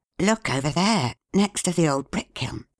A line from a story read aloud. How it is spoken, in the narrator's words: whispered Marcus